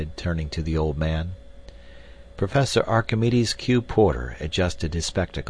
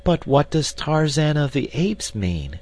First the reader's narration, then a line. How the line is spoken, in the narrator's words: cried the girl